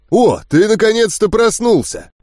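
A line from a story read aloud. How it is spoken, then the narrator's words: Joyful man. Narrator (Russian): радостно проговорил вышедший из противоположного дверного проема мужчина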